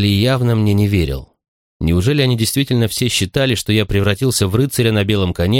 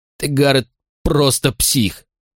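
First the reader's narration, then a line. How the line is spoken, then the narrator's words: Growl. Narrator (Russian): прорычал Морли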